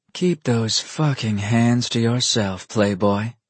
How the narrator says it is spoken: she hastily whispered to them

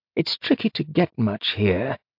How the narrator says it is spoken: he murmured

